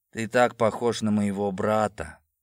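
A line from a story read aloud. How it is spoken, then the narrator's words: Sudden, sad, man. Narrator (Russian): внезапно выдал он, очень грустно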